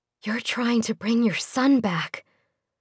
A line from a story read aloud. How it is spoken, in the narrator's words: Nika whispered